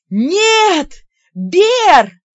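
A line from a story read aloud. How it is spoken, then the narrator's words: Howling cry. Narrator (Russian): взвыла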